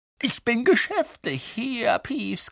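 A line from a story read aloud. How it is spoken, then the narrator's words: Croaking. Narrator (German): krächzte Harry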